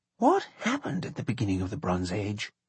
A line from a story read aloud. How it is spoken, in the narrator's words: Charles whispered to John